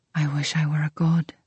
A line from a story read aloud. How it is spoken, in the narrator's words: he breathed